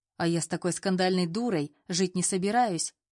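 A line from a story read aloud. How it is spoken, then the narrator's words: Snapping retort. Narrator (Russian): огрызнулся Саша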